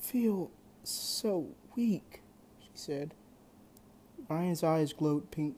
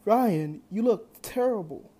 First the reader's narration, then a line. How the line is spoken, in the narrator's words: Drake exclaimed